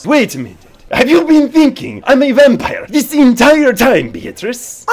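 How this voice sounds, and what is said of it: Put-on vampire accent. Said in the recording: “It's more than just the accent. ... put away the vampire stuff”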